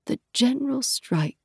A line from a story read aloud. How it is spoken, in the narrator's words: Laya muttered, resting for a moment on the landing